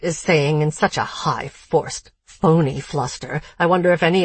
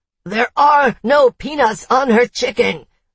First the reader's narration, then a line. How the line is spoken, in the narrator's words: the chef is shouting